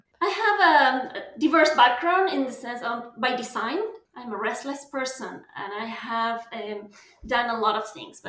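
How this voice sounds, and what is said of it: Argentinian accent. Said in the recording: “this lovely accent comes from Argentina”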